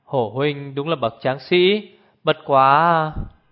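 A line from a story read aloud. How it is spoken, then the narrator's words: Sighing. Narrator (Vietnamese): Lý Ngọc Hàm thở dài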